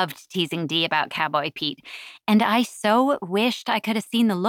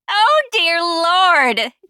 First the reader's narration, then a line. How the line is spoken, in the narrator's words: Dee had screamed, breaking into a fit of laughter